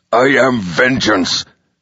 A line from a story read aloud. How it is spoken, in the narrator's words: he snarled